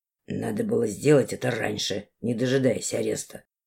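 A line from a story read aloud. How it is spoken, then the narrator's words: Grumbled. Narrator (Russian): буркнул он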